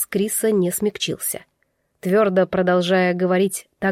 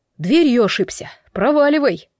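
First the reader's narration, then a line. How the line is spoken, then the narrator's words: Low menacing shout. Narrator (Russian): Неожиданно низко и угрожающе прикрикнул Крис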